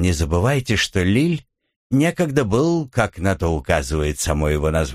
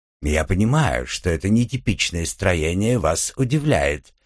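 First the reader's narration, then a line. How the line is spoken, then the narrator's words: Purring voice. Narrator (Russian): промурлыкал Леон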